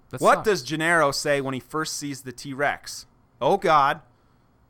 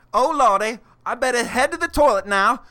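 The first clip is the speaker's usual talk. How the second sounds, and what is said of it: Badly done imitated accent. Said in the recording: “What accent was that supposed to be? ... That's Gennaro's accent. ... Oh, wow, that was really bad.”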